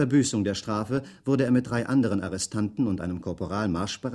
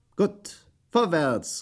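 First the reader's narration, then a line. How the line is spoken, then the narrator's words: Calling out. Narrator (German): rief Schweig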